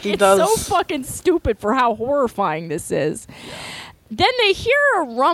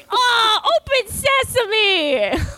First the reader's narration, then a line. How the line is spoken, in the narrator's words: Goku's literally screaming